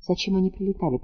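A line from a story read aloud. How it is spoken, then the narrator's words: Whisper. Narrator (Russian): прошептала Анна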